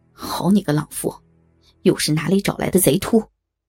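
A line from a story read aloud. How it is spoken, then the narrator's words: Furious cursing. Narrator (Chinese): 不由得大怒骂道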